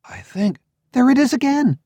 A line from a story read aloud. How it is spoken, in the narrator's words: she exclaimed